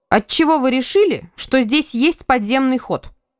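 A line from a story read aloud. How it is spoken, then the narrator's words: Indignant warlike princess. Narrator (Russian): возмущенно заявляла воинственная княжна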